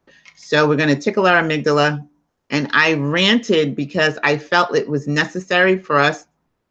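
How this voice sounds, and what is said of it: New York accent. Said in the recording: “I'm in New York too. Can't you tell by my accent?”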